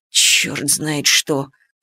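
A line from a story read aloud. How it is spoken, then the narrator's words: Muttering. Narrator (Russian): пробормотал Камышин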